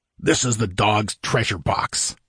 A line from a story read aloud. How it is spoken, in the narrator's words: said Valbroso angrily